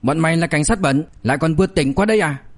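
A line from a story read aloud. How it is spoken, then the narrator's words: Shout. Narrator (Vietnamese): Diệp Dũng quát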